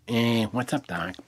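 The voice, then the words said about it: Bugs Bunny impression. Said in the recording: “did a Bugs Bunny impression ... his ability to do impersonations”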